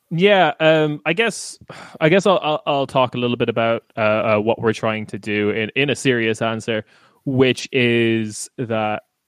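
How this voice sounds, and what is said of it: Irish accent. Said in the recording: “I am Irish uh, based on my accent”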